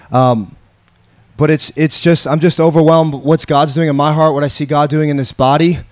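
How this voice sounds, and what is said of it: Worn, failing voice. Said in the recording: “My voice is going over these last few weeks”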